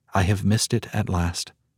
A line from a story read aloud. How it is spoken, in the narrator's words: the faint whisper